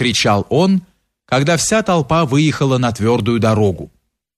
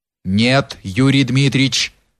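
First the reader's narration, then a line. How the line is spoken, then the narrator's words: Firm reply. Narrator (Russian): отвечал решительным голосом запорожец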